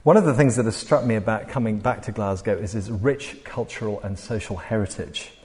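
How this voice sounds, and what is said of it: English accent. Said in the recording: “despite my English accent.”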